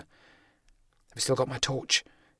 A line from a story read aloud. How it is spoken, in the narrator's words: Henderson whispered